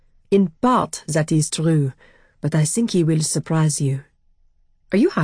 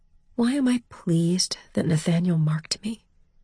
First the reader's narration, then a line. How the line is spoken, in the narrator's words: I asked it in a small voice